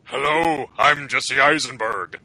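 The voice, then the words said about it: Imitates another person's voice. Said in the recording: “do an impersonation of Jesse Eisenberg”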